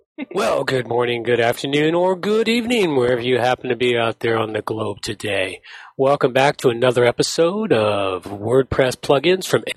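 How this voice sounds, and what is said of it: Creepy, newscaster-like tone. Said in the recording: “like a kind of creepy voice he had going there ... I'm talking about the tone. It was very CNN”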